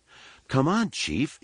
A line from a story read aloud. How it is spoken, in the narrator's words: she pleaded